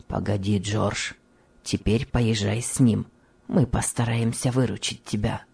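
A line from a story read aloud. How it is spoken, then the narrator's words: Kind undertone. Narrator (Russian): добрый фабрикант проговорил вполголоса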